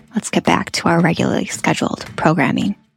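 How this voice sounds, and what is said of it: Public radio announcer voice. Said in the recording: “my very best NPR voice.”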